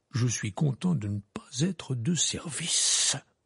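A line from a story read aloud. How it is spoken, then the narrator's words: Muttered. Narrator (French): marmonna M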